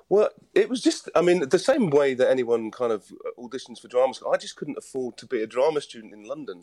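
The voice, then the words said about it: Mixed British accent, not Welsh. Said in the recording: “the Welsh accent seems to have vanished entirely ... I've got a kind of mishmash of the British Isles in my accent”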